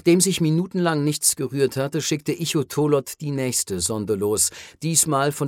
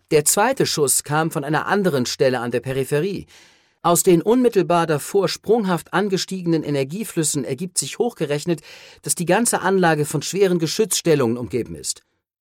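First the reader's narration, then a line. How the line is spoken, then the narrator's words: Enthusiastic call. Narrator (German): rief Cole, glühend vor Enthusiasmus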